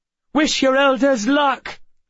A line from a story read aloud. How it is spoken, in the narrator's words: Miss Peregrine shouted to us